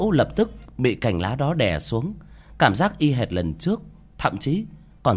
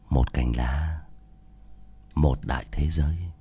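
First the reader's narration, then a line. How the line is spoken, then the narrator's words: Whispering in ear. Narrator (Vietnamese): chỉ thì thầm vào tai của Nữ Mẫu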